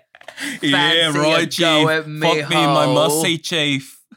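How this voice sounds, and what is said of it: Attempted Australian accent. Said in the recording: “Want me speaking Aussie? ... That's pretty good.”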